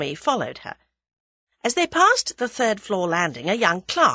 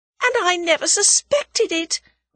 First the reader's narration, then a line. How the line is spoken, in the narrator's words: wailed Tuppence